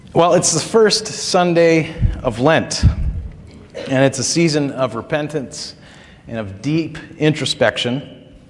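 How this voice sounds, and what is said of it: Strained voice, losing his voice. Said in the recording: “My throat is still not 100%, so I will, from time to time, sound like I'm losing my voice.”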